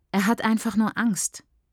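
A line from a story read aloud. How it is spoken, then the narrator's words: Plain. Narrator (German): sagt sie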